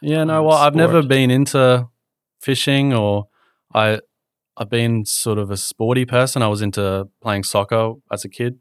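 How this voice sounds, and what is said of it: Mild Australian accent. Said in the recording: “I'm Australian ... my accent, I guess, is not a typical very strong Aussie accent. ... people have mistaken me for being English”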